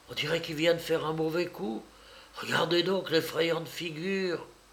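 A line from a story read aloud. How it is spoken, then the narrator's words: Quiet speech. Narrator (French): dit-elle tout bas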